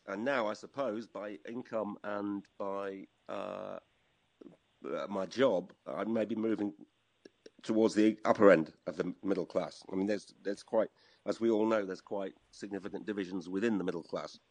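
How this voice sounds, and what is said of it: Northern English accent. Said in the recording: “you've got an accent? ... I had a northern accent”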